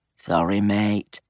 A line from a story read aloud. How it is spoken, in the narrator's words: muttered